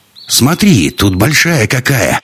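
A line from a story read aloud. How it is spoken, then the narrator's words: Plain. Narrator (Russian): сказала Инна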